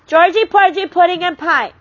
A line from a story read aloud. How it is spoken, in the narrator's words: she yelled